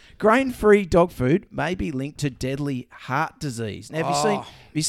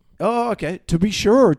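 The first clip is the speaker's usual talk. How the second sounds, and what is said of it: Put-on Irish accent. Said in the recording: “that's my quite. Irish coming out there every time”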